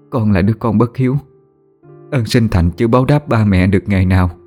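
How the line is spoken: Choked with tears. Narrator (Vietnamese): Nhung nghẹn ngào, cô đáp

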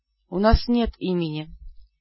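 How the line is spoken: Whispering shadows. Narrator (Russian): прошептали тени

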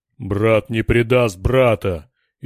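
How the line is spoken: Thundering, growing heated. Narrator (Russian): еще громче прогремел богатырь, распаляясь от неожиданного для него сопротивления

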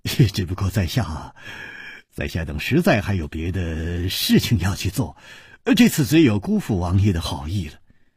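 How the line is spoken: Sigh, wry smile. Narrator (Chinese): 楚留香只有叹了一口气，苦笑着说

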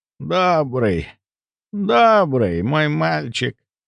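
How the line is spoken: Creaky voice. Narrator (Russian): Проскрипела госпожа Син

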